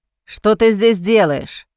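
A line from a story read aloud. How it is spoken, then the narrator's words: Irritated, pained question. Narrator (Russian): спросил раздраженно Джозеф, поморщившись от боли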